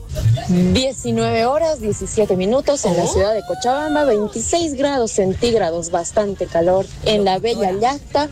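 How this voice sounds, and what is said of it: Polished radio announcer voice. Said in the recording (Spanish): “voz de locutora ... ¡Qué bonita voz! ¡Qué bien vocaliza!”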